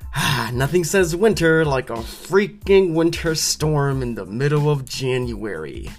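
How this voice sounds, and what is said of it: Sarcastic delivery. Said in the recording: “You can tell I'm being sarcastic.”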